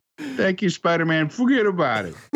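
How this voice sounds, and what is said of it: Thick New York accent. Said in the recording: “a thick New Yorker accent.”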